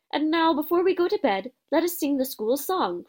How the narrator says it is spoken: cried Dumbledore

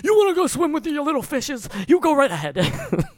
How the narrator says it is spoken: Michael Rapaport yells

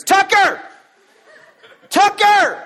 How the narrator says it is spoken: I'm screaming, running through Walmart

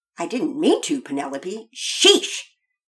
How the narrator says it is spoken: Pearson snapped back

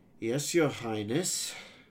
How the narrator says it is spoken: groaned

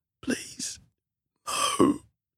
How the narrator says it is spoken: Hal pleaded, but he could only manage a whisper

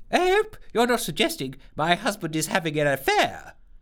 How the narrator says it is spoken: exclaimed the minister, looking really rather unamused at the suggestion

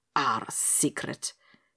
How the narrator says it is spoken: he repeated bitterly to himself

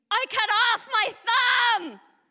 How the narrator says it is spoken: scream

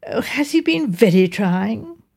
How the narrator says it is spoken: My wife said in a sympathetic voice

